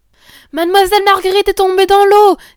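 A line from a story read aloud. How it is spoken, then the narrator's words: Women shouting. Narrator (French): criaient les bonnes femmes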